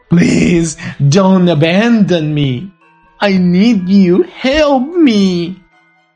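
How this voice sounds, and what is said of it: Plaintive, begging voice. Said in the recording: “begged her in a plaintive voice”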